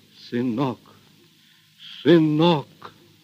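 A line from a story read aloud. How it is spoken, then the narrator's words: Choked, repeating. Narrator (Russian): Григорий сдавленным голосом твердил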